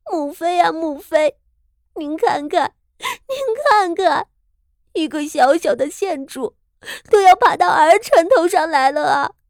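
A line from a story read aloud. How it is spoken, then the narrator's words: Sobbing, aggrieved and indignant. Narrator (Chinese): 昭娇公主怀着满腔的愤懑和委屈 痛哭道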